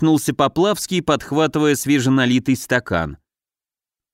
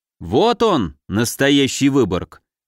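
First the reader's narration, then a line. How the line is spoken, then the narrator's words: Solemn. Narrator (Russian): торжественно выдал Поплавский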